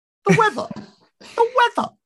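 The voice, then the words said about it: Jesse Lingard impression. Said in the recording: “In the word of a poet, one Sir Jesse Lingard ... That's a great impression.”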